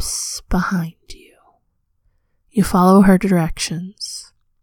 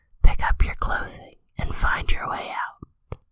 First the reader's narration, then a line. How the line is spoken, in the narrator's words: whisper